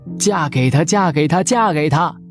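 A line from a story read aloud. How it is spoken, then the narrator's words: Sudden shouting from behind. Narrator (Chinese): 身后突然响起了叫喊声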